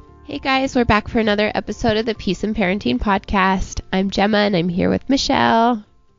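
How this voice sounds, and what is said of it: Slightly raspy voice. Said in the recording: “Fighting another cold if my voice sounds a little raspy”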